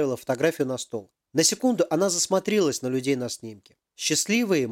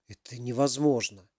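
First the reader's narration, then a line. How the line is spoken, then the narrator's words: Whisper. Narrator (Russian): прошептал Ярослав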